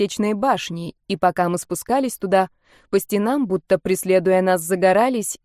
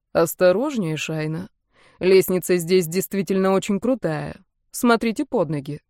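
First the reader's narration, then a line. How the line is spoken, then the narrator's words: Calm. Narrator (Russian): сказал он спокойно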